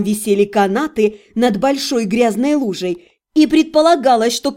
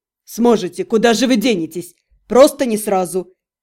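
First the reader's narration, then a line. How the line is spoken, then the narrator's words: Moaning. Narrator (Russian): Я снова застонала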